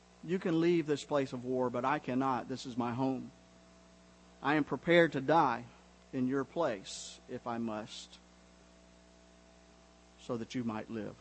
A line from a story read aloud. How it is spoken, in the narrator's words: Jurisic quietly said